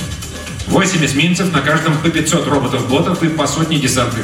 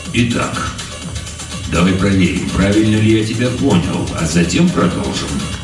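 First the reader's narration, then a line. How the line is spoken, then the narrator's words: Calm colonel. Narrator (Russian): спокойно произнес полковник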